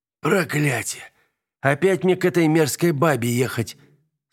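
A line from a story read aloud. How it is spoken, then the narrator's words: Groaning. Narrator (Russian): Сол застонал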